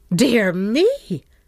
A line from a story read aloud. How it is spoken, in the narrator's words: cried the Countess, staring and half alarmed